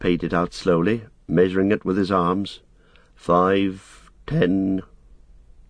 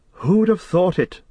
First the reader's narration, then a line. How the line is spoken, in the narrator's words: Frodo exclaimed